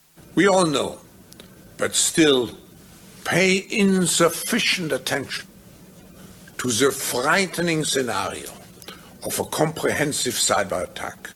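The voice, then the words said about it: Thick guttural accent, Klaus Schwab. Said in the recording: “Klaus Schwab. ... He's got that thick guttural accent”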